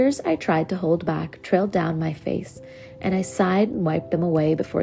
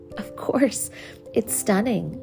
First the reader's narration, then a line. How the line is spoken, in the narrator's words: I stammered